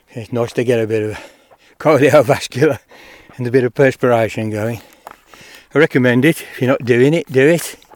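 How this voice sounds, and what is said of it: Out of breath, audible breathing. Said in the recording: “I'm a bit out of breath. ... if you can hear me breathing, that's what it's about. ... I'm kind of catching my breath now.”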